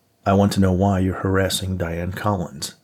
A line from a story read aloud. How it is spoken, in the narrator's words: Nate asked